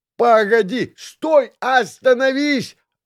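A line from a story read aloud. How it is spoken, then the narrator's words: Yelling while running. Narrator (Russian): Орал я, летя по лесу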